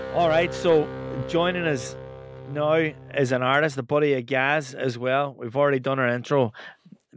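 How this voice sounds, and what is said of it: Irish Donegal accent. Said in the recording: “my Donegal accent ... big northern twang”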